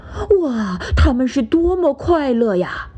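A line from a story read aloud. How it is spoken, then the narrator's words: Amazed. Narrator (Chinese): 裁缝和金匠惊叹地说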